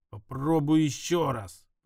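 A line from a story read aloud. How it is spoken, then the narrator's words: Growling. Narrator (Russian): прорычал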